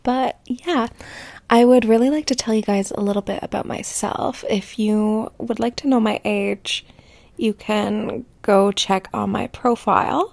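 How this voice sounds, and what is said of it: Slightly hoarse, strained voice. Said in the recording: “I have been slightly losing my voice”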